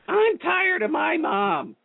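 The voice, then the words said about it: Imitates another person's voice. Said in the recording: “that was my Brady impersonation.”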